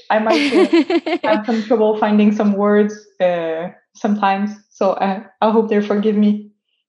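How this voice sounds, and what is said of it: French Canadian accent. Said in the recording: “pardon my uh, French Canadian accent”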